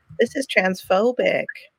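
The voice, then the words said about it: Put-on American accent. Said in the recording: “I love the American accent that she just took on there.”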